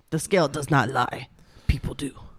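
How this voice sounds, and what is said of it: Imitates another person's voice. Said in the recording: “Do an impression of Dr. Now... I can't do a fucking impression of Dr. Now... It might be kind of racist... He is Iranian”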